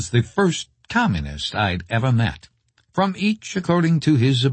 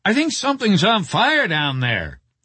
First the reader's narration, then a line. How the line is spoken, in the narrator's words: yelled